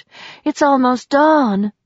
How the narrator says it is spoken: breathed

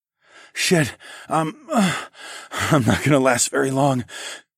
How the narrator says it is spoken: I panted

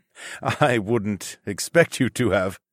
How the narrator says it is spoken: my father chuckled

